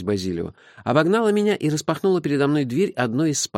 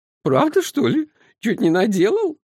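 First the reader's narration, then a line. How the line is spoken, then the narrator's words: Giggling. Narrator (Russian): хихикнула она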